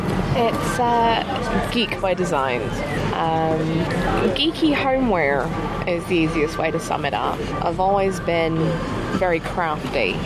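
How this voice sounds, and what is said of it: American Southern drawl. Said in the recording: “you're not from these shores originally ... the accent, the drawl is there”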